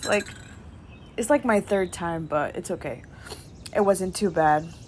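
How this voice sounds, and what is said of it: Slightly rough, off-sounding voice. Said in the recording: “my voice is a little wonky. I'm actually recovering from COVID.”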